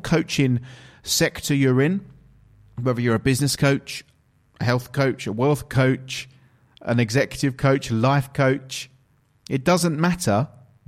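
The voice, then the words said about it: English accent. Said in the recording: “If you couldn't tell from my accent by now and the intro, I'm actually from England, from the United Kingdom”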